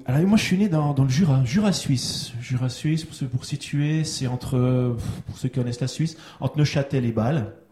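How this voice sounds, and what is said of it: Slight Swiss French accent. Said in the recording (French): “On entend ton petit accent, un entend suisse, un accent suisse”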